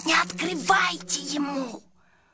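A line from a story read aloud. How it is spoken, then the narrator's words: Hissing. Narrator (Russian): Сашка зашипел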